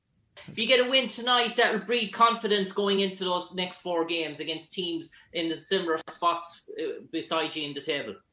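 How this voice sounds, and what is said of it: Irish accent. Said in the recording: “Ireland. ... I like your accent. It's tough. I want to learn how to talk like that.”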